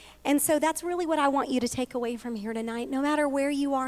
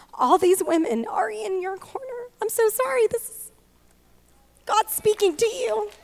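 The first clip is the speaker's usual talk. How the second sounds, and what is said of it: Emotional, choked-up speaking voice. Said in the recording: “I'm getting emotional. Wow. It's just, when I feel the Holy Spirit, I get emotional.”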